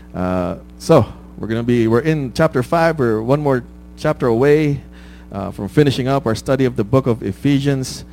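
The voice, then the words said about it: Rough, hoarse voice. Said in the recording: “pardon my voice. I know it sounds rough”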